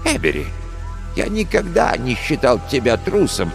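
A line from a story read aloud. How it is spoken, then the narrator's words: Gentle. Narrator (Russian): мягко сказал доктор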